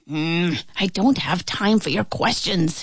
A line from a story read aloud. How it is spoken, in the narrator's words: he muttered